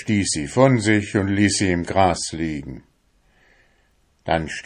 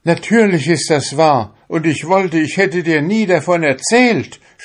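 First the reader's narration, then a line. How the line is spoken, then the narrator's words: Screaming while crying. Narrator (German): schrie sie und umfasste weinend seine Knie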